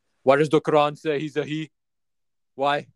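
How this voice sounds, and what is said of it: Exaggerated put-on accent, screaming. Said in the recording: “this crazy accent ... Screaming”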